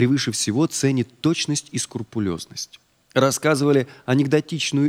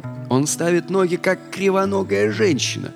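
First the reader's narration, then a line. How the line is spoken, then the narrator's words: Muttered. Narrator (Russian): пробурчал инспектор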